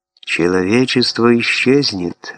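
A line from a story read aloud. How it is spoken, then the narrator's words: Even, level voice. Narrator (Russian): ровным голосом продолжал Вебстер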